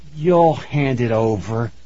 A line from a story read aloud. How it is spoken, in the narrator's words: he said through gritted teeth